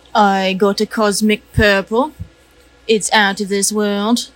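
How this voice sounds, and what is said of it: Put-on British accent. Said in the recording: “British. ... for one night only. ... I'm capable of many accents.”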